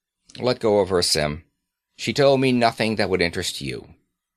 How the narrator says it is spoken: He said curtly

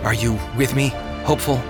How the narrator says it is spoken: Christian whispered

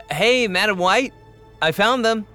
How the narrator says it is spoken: Loon called out

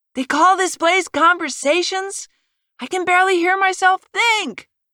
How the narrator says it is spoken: Nicole yelled over to Carol

